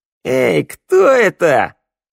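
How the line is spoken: Barking snap. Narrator (Russian): рявкнула Шныряла

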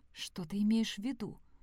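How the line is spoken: Whispered reply. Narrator (Russian): прошептала Сэм в ответ

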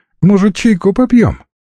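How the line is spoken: Cheerful offer. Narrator (Russian): весело предложила

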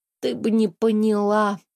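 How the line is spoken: Tired. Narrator (Russian): устало ответила принцесса

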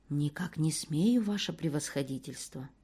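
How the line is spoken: Lowered, confidential tone. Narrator (Russian): Исайка понижая голос, проговорил несколько конфиденциальным тоном

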